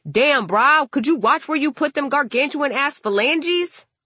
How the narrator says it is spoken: somebody yells

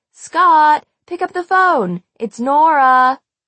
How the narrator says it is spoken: shout

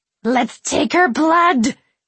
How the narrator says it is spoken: Kiernan shrieked

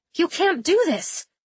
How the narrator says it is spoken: she blurted out

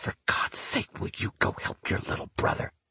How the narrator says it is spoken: My mother leans in and whispers

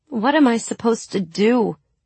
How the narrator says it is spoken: I pleaded

